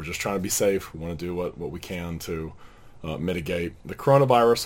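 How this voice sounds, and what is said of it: Partly lost, strained voice. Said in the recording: “I've lost my voice a little bit when I preach.”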